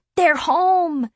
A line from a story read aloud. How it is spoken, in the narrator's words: Garrett yells